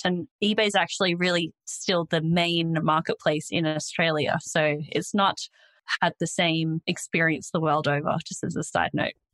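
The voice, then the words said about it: Australian accent. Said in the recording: “I'm Australian, if you couldn't already tell from my accent”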